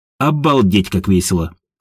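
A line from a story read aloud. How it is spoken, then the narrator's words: Snorting. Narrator (Russian): фыркнула Едвига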